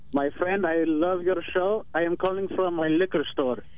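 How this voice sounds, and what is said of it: Fake foreign accent. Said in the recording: “I smell a fake accent.”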